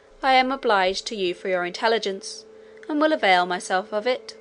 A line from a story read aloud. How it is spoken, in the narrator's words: replied coldly